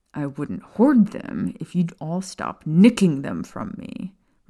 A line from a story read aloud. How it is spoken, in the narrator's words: Remus growled